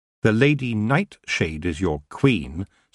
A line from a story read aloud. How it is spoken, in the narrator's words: said Tiffany firmly, her legs shaking